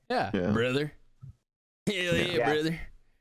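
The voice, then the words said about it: Gravelly redneck wrestler voice. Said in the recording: “redneck accent ... I picture Hulk Hogan ... the bottom, like the throat gurgle on”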